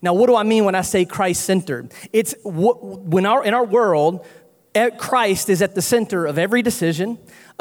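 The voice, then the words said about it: North Carolina Southern accent. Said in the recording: “I'm from North Carolina, if you can't tell by the accent”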